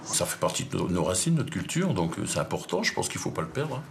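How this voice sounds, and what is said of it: Sing-song southern French accent. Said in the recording (French): “l'accent le plus sexy de France ... avec ce petit accent. Elle dit qu'est-ce que c'est beau, on dirait que vous chantez quand vous parlez ... On est dans le sud, on parle du sud”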